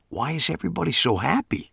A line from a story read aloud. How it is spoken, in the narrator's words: whispered